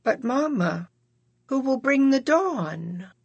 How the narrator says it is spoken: John sadly asked

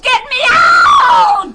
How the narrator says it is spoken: She screamed

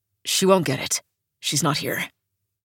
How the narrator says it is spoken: Dove mumbles into space

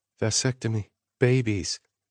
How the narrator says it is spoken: Sloane murmured

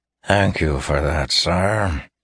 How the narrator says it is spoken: Terrace growled

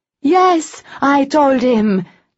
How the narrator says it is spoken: Tess bellowed, shouting right into Arian's face

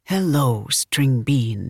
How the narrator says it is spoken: he whispered

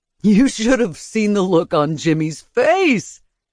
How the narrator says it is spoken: Ulrich said, laughing

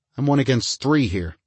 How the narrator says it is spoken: he snapped

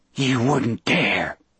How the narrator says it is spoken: Percy whispered

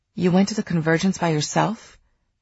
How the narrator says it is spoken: His voice rose

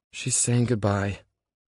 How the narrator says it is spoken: Lena says sadly

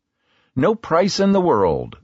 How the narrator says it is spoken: they cried, presumably in unison

